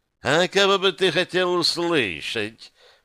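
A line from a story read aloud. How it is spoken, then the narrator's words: Purring reply. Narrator (Russian): Промурлыкал в лучших традициях Жмеренки в ответ тот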